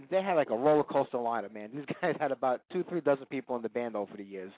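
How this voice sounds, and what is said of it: Brooklyn accent. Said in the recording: “with the Brooklyn accent, it's even worse”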